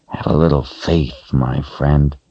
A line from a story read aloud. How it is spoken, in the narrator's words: the other said in a low voice